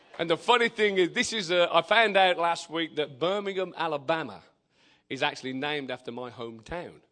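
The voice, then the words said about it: Non-American English accent. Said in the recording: “I am not from this neck of the woods. I don't speak like y'all. ... Man, I like your accent. ... I haven't got an accent. I'm speaking English. You've got the accent, not me.”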